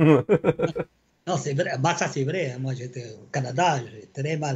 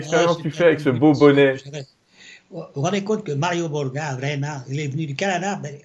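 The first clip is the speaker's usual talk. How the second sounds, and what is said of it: Clumsy put-on accent. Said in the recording (French): “Fais pas cet accent, euh, ma femme arrête pas de dire que nous, les Français, on ne sait pas le faire”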